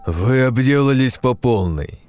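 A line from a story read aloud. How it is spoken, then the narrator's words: Irritated, cutting. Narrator (Russian): раздраженно припечатал Франциск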